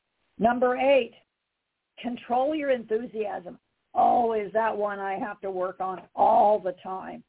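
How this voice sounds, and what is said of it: Excited, enthusiastic voice. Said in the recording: “You can tell from my voice, I'm excited to be doing this.”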